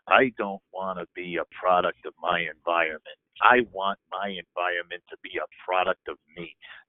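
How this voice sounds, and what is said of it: Poor imitation of another person's voice. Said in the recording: “terrible Jack Nicholson impression, not one of my better ones”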